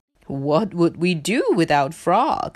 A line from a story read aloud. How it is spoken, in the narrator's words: laughed Hare